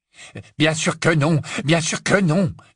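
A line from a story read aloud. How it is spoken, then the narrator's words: Annoyed exclamation. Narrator (French): s'exclama Lucius agacé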